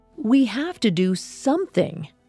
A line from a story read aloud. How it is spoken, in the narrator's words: someone shouted